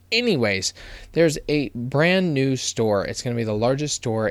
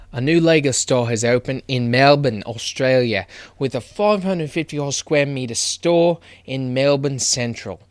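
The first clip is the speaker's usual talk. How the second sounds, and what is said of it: Poor put-on Australian accent. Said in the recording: “that was a terrible idea to do an Australian accent ... that did not do anyone justice”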